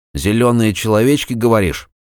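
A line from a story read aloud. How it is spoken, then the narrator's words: Skeptical snort. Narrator (Russian): хмыкнул он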